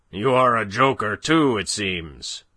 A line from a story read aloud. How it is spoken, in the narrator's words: roared the other